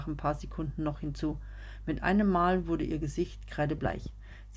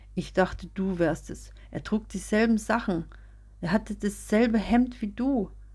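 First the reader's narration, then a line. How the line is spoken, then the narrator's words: Sobbing. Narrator (German): sagte schluchzend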